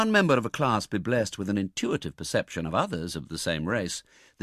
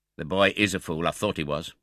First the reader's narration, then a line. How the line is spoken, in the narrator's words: said the gentleman in the white waistcoat in a very decided tone